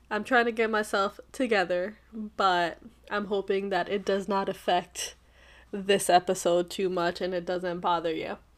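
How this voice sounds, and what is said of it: Scratchy, congested voice. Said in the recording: “my voice sounds a little bit scratchy ... I have some congestion issues ... I have allergies”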